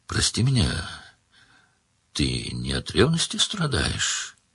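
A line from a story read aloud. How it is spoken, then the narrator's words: Quiet. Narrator (Russian): тихо сказала Маргелена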